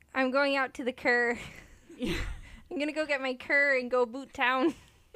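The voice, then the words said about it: Exaggerated Canadian accent. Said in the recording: “How do we go like major Canadian?”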